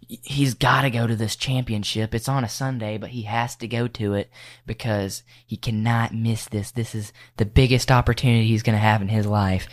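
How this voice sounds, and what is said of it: Imitates a mother's voice. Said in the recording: “Is that the dad voice or the mom voice? ... Probably the mom voice.”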